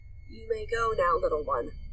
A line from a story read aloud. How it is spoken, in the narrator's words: he rasped